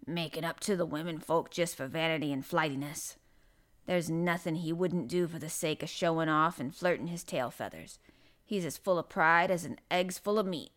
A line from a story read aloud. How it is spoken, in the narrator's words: snapped Ben Weatherstaff